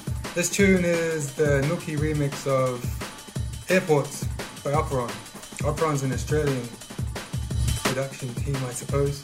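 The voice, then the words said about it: New Zealand accent. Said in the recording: “If you hadn't guessed from the accent, ... is from New Zealand”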